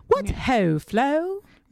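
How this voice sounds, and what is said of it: Attempted British accent. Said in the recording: “Did I sound British? ... A different type of British accent. ... Proper posh British woman. ... You're not good at them.”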